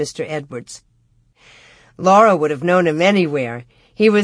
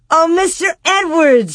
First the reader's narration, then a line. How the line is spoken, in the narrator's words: she cried out